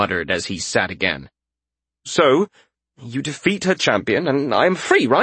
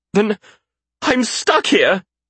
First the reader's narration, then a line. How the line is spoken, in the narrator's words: he cried